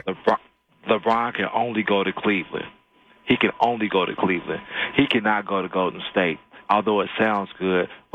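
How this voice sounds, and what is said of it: Polished radio announcer voice. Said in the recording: “I hear your radio voice, man. Very nice.”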